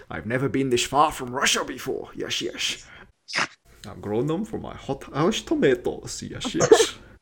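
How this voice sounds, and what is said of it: Put-on Russian accent. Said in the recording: “my Russian accent is almost as good as Sean Connery.”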